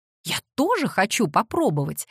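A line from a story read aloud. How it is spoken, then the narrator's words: Exclaimed. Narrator (Russian): воскликнула Кассандра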